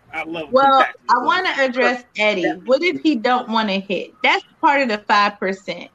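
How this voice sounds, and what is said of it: Serene voice with a distinct accent. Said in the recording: “her voice is so serene ... It's her accent. It's the accent. That's all. The accent.”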